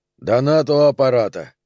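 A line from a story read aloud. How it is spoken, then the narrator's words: Firm voice. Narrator (Russian): сказал он твердым голосом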